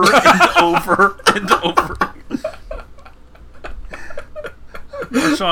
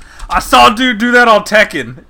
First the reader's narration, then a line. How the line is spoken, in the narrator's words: Marshawn just yells